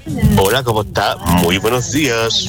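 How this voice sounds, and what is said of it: Radio announcer-like voice. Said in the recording (Spanish): “Qué voz de locutor tiene voz de locutora.”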